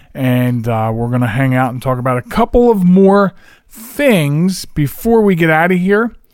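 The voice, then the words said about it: Strained, worn-out voice. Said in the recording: “excuse my voice. ... I barely have a voice left”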